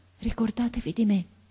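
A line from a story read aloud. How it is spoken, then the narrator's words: Faint breathy murmur. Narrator (Italian): mormorò ancora il ragazzo con una voce che pareva un soffio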